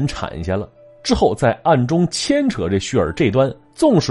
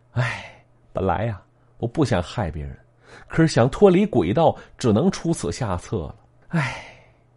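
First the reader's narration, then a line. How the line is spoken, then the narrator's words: Girl sighing. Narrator (Chinese): 这姑娘又叹了口气，说了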